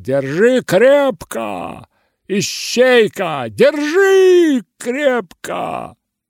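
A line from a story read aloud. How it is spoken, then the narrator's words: Shouting. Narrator (Russian): Он кричал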